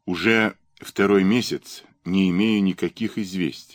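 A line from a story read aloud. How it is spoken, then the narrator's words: Plain. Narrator (Russian): сказал Сенцов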